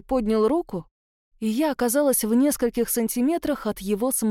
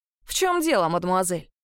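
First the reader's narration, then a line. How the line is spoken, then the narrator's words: Tyrant, angry question. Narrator (Russian): сердито спросил тиран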